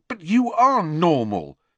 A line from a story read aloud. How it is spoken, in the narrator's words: said Harry fiercely